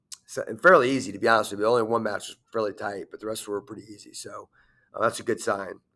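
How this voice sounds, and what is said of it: Hoarse, strained voice. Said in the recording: “as you can tell by my voice, a lot of yelling”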